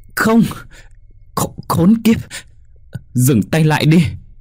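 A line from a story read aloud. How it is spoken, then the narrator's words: Anguished, despairing scream. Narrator (Vietnamese): gào lên trong đau đớn, tiếng thét uất hận trong tuyệt vọng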